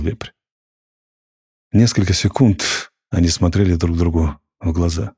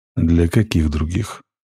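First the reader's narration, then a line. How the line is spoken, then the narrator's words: Gloomy question. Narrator (Russian): мрачно спросил Максим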